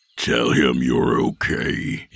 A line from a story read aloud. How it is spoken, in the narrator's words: he growled